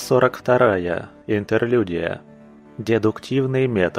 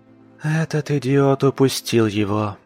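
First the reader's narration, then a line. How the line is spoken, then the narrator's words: Hopeless sigh. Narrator (Russian): Безнадежно вздохнула Алина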